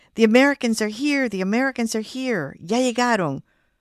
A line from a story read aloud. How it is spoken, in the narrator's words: The driver screamed